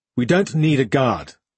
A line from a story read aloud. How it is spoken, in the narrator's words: Fornella said, her tone harsh